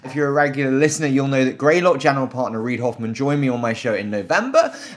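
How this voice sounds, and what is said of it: British accent. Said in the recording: “this terrible British accent”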